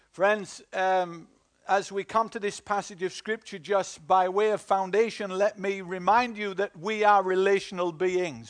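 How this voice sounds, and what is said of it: Northern English accent. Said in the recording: “Are you laughing at my northern accent?”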